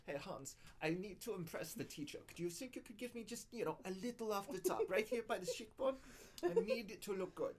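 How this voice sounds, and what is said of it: Put-on German accent. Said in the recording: “German accent. That's so great. ... I'm pretty sure no one in Germany would agree.”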